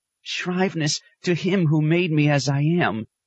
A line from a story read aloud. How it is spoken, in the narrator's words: she whimpered